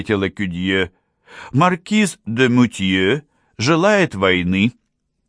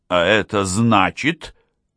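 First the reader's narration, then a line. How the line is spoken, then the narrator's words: Displeased tone. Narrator (Russian): сказал он с недовольным тоном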